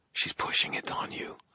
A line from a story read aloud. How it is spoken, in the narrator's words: I said quietly